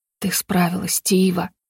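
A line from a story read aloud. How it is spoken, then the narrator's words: Hoarse rasp. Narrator (Russian): прохрипел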